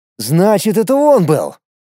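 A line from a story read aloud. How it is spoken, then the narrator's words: Sudden exclamation. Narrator (Russian): воскликнул вдруг Семен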